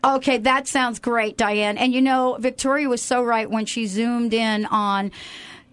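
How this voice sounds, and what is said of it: East Coast American accent. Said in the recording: “I thought you were on the East Coast ... has that East Coast flair ... I've been working on my accent”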